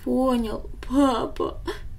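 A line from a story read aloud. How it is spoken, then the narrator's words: Boy sobbing. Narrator (Russian): всхлипнул мальчик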